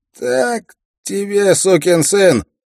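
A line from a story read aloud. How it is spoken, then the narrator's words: Shout. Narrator (Russian): прокричал Стен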